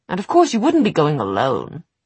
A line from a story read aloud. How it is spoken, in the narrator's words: Will said impatiently